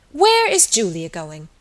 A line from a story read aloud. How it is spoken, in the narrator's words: she said almost testily